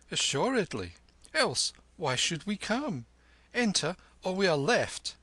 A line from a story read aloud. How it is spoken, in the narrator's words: cried Kim